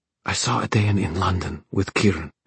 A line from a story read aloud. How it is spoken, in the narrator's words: she whispered